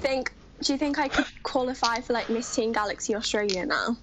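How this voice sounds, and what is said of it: Exaggerated broad Australian accent. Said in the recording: “you sound too bogan. Your Aussie accent literally is someone in the middle of the outback who's roasting lizards over a campfire ... You've gone full on like crocodile, like with Steve Irwin, that really, oh, crikey, mate ... you enunciate too clearly”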